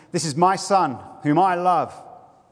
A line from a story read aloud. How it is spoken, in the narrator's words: Father beamed his pride and boomed out shouts of affirmation